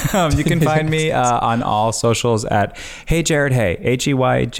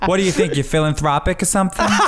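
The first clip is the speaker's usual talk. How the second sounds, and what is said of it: Put-on Long Island accent. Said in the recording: “with a Long Island accent”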